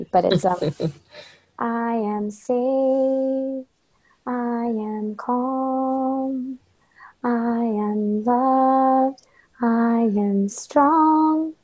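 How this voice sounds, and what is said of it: Slightly hoarse, froggy voice. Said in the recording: “my voice is a little froggy”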